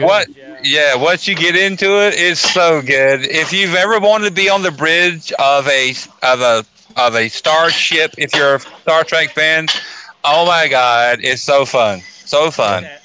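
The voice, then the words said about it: Valley girl-like speech. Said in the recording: “I feel like I sound like a valley girl right now.”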